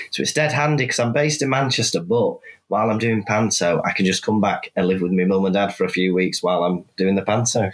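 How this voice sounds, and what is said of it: Mild Welsh accent with Mancunian tinge. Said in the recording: “It's not a very strong Welsh accent you have ... I was infected by the kind of Mancunian accent because I've lived there about 6 years ... it's definitely not Welsh.”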